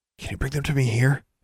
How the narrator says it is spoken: she whispered

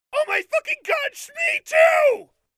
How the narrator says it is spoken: I shrieked

